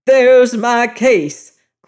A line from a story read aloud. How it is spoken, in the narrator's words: cried O'Malley dramatically